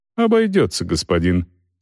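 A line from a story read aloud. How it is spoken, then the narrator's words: Calm. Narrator (Russian): спокойно отвечал монах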